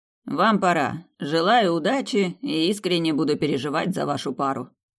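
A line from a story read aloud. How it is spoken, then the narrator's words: Mocking. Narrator (Russian): насмешливо произнес он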